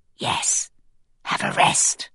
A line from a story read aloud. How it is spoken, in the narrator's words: I whisper